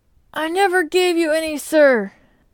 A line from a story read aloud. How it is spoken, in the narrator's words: said Sam, for it was his voice that we heard, though low and half choked